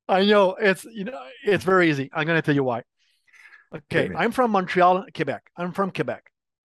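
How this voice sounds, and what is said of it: Slight French Canadian accent. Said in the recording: “I have an accent because I'm French speaking. I'm not French. I'm French Canadian. ... I can hear that accent a little bit.”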